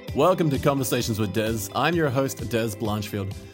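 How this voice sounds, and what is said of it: Smooth classy radio-announcer voice. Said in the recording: “radio voice ... It's my sexy voice. ... It's classy, very classy.”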